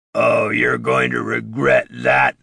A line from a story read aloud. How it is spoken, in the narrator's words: snarled Gritty